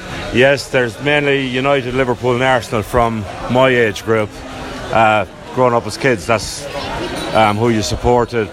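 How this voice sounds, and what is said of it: Strong Tipperary Irish accent. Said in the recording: “Is your accent still strong Tipperary? Sounds it to me.”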